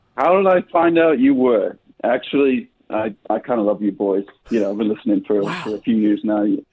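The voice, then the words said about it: Convincing British accent. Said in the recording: “Your accent is 10 out of 10 British.”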